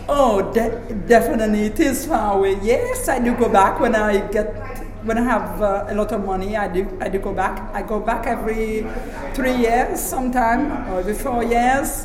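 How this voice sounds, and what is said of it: Foreign accent in English. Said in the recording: “I still got the accent, so they can tell I'm from somewhere. I wasn't born here.”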